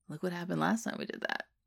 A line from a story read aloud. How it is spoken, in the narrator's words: Jack murmurs